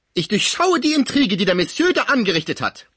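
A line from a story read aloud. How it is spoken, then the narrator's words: Angry mother screaming. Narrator (German): schrie die wütende Mutter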